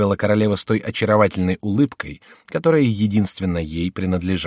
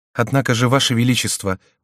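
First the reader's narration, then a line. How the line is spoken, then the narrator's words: Queen's timid objection. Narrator (Russian): возразила робко королева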